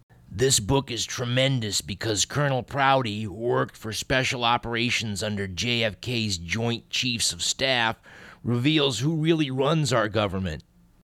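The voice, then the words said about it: Jesse Ventura impression. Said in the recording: “Let's see if I can do a Jesse Ventura impression.”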